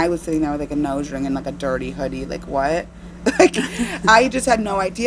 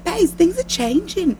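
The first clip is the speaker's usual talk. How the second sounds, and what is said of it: Imitated Australian accent. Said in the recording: “gorgeous tan Australian woman ... how you do an Australian accent”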